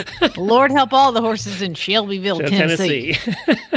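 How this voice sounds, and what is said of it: Well-done put-on accent. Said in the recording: “Good job, with that accent. Good job.”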